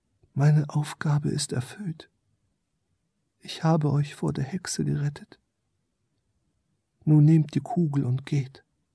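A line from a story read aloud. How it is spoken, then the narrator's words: Small creature speaking softly. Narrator (German): Das kleine Wesen sprach leise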